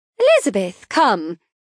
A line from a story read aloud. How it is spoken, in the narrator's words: my mother exclaims